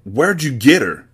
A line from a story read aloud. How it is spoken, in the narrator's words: He barked as spit flew from his mouth